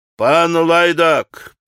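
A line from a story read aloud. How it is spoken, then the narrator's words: Sudden grumble. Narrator (Russian): проворчал вдруг высокий пан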